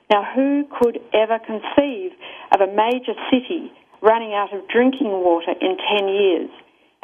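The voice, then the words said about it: Australian accent. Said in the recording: “which you may be able to tell from my accent is Australia”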